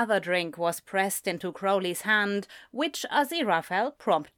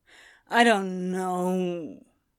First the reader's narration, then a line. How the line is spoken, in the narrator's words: Crowley slurred